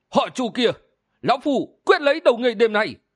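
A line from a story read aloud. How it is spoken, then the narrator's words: Thunderous roar. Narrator (Vietnamese): Y gầm giống lên một tiếng như sấm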